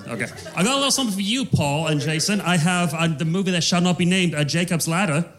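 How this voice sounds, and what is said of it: Put-on British accent. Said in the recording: “your question in a British accent, go. ... Okay, great, in a British accent.”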